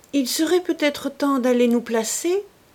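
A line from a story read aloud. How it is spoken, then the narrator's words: Said timidly. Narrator (French): dit timidement M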